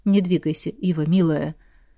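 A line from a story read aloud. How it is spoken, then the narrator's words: Quiet yet seeming shouted. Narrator (Russian): Произнес кто-то негромко, но знахарке почему-то показалось, что кричат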